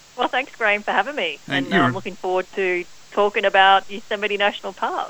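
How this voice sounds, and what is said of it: Australian accent. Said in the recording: “you've got an Aussie accent”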